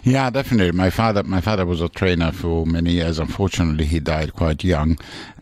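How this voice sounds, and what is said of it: Slight, polished Italian accent. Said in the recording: “you can partially gather from the accent that there's an Italian in there somewhere. It's very polished now because ... spent so many years in England.”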